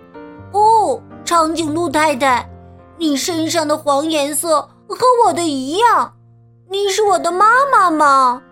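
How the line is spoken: Loud. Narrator (Chinese): 他大声说

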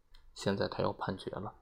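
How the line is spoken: Low murmur. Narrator (Chinese): 隆巴德低声对威勒说

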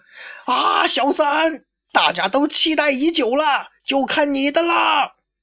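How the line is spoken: Excited loud shout. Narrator (Chinese): 阿德看见攻这个三井出手了，那是激动不已啊，站起来高吼啊

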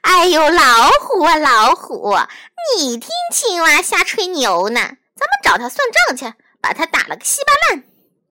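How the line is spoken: Hearty laughter. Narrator (Chinese): 狐狸哈哈大笑

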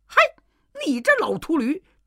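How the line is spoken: Furious. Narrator (Chinese): 行者大怒

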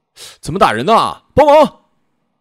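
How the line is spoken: Shout. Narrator (Chinese): 校长 喊了一嗓子

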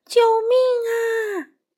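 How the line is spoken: Crying scream. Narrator (Chinese): 小哥哭着叫

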